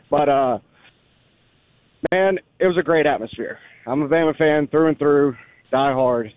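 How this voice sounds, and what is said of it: Slightly hoarse voice. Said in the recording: “My voice is still probably a little, you know, hoarse from Saturday”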